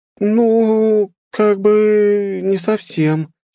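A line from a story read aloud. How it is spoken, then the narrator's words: Embarrassed drawl. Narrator (Russian): смущенно протянула эльфийка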